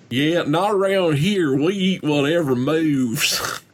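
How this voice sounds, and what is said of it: Bad put-on hillbilly accent. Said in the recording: “Bad hillbilly impression.”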